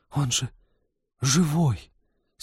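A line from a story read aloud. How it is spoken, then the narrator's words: Breathless, strained. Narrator (Russian): с придыханием выдавил Сбышек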